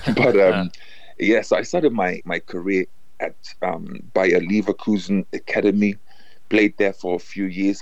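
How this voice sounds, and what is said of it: German accent in English. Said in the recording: “I was born and raised in Germany. That's why maybe the accent.”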